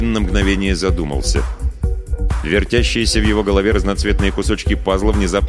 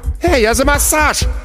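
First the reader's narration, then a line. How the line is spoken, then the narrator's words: Yelling. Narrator (Russian): завопил Шибанай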